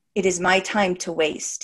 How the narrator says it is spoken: he said

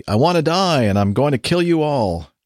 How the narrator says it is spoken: She was yelling, the crazy lady

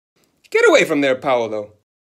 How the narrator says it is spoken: Signora Pianostrada would shout

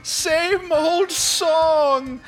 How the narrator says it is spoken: hear her once again yell

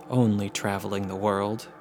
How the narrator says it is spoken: Gordon said

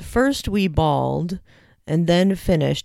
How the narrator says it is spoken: he said

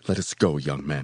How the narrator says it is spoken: he said angrily

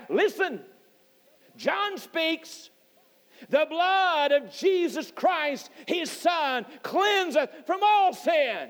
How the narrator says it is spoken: he cried out

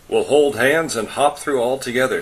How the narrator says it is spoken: said Anton

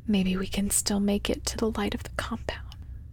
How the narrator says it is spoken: he whispers

